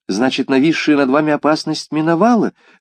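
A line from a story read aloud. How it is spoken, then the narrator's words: Lively exclamation. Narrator (Russian): живо воскликнула Батильда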